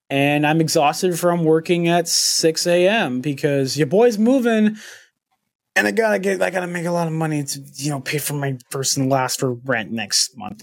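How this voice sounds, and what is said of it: Hoarse voice. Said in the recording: “my voice is relatively hoarse”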